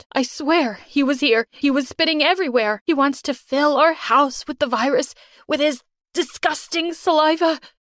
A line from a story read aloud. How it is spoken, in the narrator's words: she cried